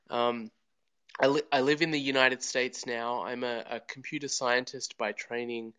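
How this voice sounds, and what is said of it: Slight Australian accent. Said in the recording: “I am originally from Australia. You might hear that a little bit in my accent.”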